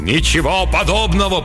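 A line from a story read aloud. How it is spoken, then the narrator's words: Disembodied thundering voice. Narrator (Russian): прогремел из-за занавеса бестелесный голос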